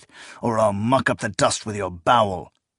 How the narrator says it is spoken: he hissed between clenched teeth

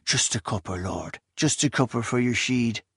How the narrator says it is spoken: murmuring

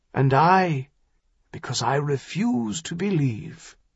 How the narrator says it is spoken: Greyharbor said softly

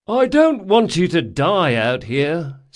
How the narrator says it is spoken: said Locke, yawning in feigned boredom

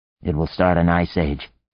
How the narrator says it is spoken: muttered

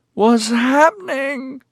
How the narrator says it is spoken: Corilyn slurred

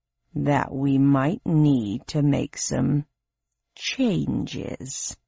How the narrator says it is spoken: said Hades slowly

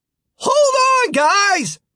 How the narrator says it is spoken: Martin shouted

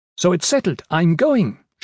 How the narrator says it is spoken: said triumphantly

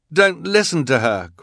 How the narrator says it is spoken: Quigley pleaded

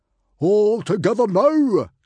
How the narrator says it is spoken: cried out Stoic

